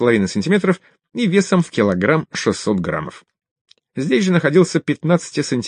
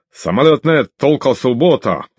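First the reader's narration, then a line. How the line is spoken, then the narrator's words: Shouting young man. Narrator (Russian): кричал небритый парень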